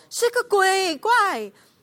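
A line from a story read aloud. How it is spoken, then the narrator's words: Frightened shout. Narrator (Chinese): 便害怕，喊叫起来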